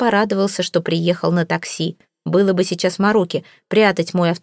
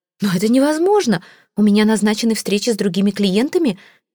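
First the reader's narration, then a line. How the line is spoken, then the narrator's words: Exclaimed. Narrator (Russian): воскликнула она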